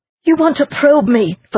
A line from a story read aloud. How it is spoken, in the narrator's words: Felice spat out